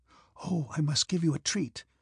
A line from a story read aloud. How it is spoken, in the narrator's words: Bilibin whispered to Bolkonski